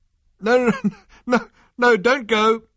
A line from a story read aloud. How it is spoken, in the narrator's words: called Ford Prefect between gasps